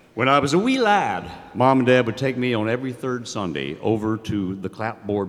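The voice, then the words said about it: North Carolina mountain accent. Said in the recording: “isn't actually putting on that accent. He is, in fact, from the mountains of North Carolina.”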